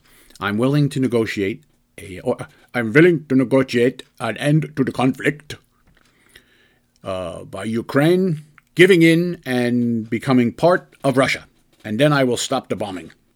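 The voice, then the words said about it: Bad put-on Russian accent. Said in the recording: “that's a bad accent. I don't really know a Russian accent, but in my head it sounded good.”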